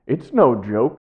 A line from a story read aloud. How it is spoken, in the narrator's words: continued with a chuckle